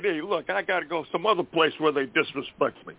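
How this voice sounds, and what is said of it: Decent imitation of another person's voice. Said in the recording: “I do a decent imitation of? I do Rodney Dangerfield.”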